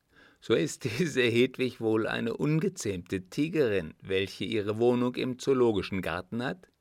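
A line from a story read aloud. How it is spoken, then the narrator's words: Laughing. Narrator (German): lachte Gebhard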